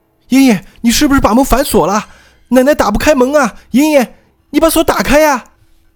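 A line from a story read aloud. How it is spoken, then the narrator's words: Grandmother calling out. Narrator (Chinese): 罗奶奶又喊道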